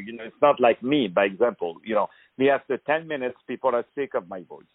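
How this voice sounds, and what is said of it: French accent. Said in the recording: “I love the French accent”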